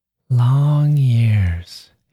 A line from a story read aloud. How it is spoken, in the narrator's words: he sighs